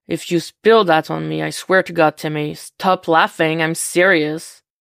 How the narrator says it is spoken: he shouts directions in Jason's ear, over the roar of the wind and engine

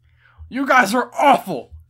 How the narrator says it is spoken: shouted Reiner

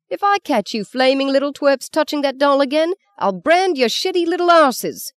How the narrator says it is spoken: Frank yelled after them

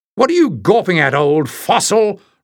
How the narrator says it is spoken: roared the giant stranger

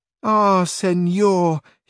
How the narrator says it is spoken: exclaimed the niece

